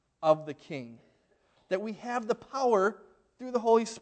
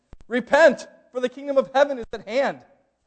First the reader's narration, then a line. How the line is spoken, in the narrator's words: John the Baptist is out there shouting